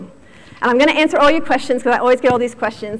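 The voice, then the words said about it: American accent. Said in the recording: “you can tell from my accent that I come from the United States. I grew up in Virginia”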